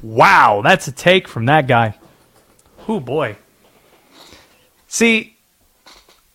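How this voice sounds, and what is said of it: Usual voice. Nothing is said of it.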